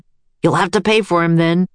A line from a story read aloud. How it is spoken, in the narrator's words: he barked